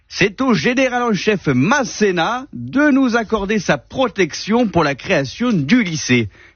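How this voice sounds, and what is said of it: Put-on accent, done well. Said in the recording (French): “Je sais pas pourquoi je lui fais un accent. ... tu le fais vachement bien”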